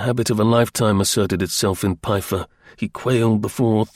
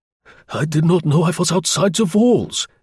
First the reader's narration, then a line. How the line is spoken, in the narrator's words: faltered